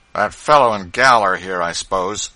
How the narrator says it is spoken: said he sullenly after a pause

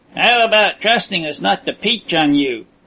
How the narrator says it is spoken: cried someone

